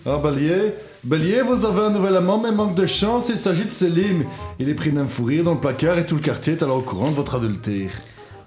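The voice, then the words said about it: Put-on Brussels accent. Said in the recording (French): “avec l'accent bruxellois... Un accent bruxellois.”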